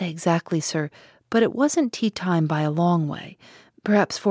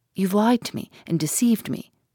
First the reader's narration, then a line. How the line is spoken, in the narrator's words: she said